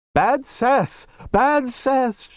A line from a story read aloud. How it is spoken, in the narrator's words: she cried